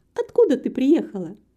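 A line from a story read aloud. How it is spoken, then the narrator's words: Cheerful question. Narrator (Russian): весело спросила Антонетта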